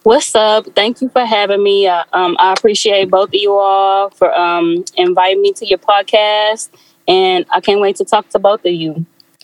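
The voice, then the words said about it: Mixed Louisiana and Texas accent. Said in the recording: “Love your accent ... It's a Louisiana / Texas accent ... it was just a mixture”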